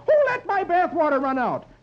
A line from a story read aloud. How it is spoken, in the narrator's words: Dagwood yells